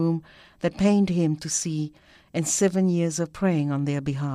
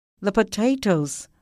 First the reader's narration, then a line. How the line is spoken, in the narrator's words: Liam cried, in his haste